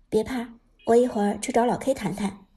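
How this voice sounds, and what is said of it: Quiet whispered line. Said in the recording (Chinese): “贴近耳边小声说道”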